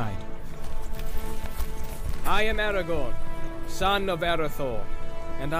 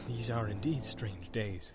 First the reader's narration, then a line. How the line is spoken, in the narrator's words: he muttered